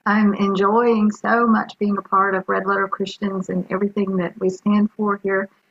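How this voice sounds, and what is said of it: Alabama accent. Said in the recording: “I live in Alabama. If you haven't figured that out by the accent already”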